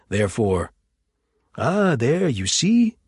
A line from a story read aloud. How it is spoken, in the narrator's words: exclaimed John